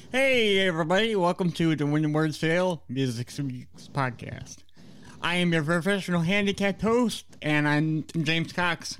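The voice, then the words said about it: Voice like a Muppet character. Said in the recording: “my voice sounds like Scooter from the Muppets”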